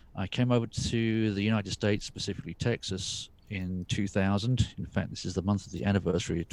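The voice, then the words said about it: English accent. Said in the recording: “British, specifically English ... You haven't lost your accent ... Held on to that pretty good”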